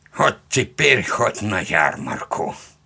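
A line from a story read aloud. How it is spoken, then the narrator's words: Old man's snort. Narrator (Russian): хмыкнул дед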